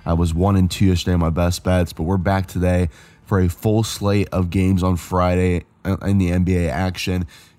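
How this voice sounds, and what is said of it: Strained voice recovering from voice loss. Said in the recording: “As you can tell, I did lose my voice on Thursday”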